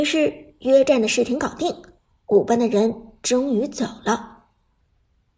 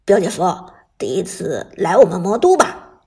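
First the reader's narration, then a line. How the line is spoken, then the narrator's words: Chuckling, low question. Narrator (Chinese): 许旺嘿嘿一笑，低声问道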